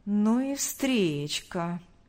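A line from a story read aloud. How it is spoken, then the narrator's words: Drawl. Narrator (Russian): протянул Павел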